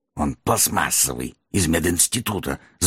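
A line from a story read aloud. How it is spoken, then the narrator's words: Angry hiss. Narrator (Russian): злобно прошипел магистр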